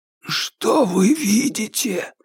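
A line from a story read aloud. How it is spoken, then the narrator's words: Hoarse excited whisper from above. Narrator (Russian): донесся сверху хриплый, взволнованный шепот Джеймса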